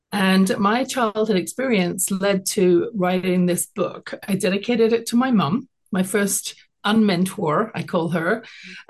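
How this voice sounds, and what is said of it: British English accent. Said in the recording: “you can tell from my accent that I wasn't born in Canada ... I was born in London, England. I grew up there.”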